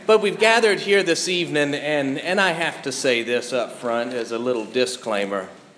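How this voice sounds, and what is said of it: Mild Southern US accent. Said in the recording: “I got a little bit of an accent. ... if I get too southern for you”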